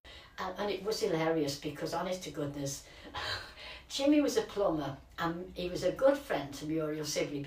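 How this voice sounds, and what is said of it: Lancashire accent. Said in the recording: “we hear a Lancashire accent.”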